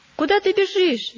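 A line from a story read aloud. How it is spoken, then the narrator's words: Stubborn one shouting. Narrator (Russian): закричал упрямый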